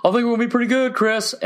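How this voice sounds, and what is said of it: Imitates another person's voice. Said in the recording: “that whole voice I just did sounds kind of ridiculous. That's my best impression I do, hands down... You sound just like her.”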